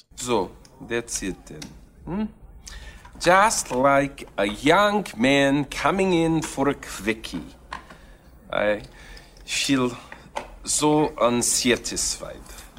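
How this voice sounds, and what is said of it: Bad put-on foreign accent. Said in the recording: “It's a bad accent. I really believe it's bad”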